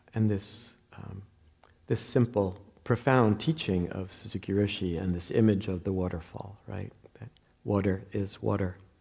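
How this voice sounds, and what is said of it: New Jersey accent. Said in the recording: “I always feel my New Jersey accent every time people often correct water. ... That's how they say it in New Jersey.”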